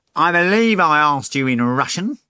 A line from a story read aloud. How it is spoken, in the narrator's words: the cat said sternly